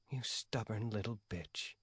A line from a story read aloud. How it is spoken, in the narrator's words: mutter